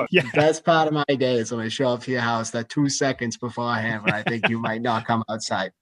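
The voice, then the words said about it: Put-on Boston accent. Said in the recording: “You might have done a better Boston accent than Benny Affleck right there. That was good.”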